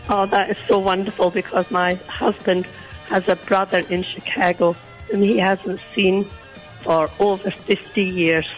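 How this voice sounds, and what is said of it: Croaky, hoarse voice. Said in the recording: “You're a little croaky this morning ... I have a bit of a sore throat.”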